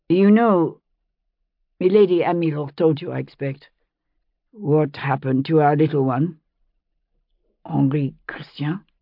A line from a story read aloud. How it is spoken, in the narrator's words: The name came hesitantly, as though it had been a long time since Fergus had spoken it aloud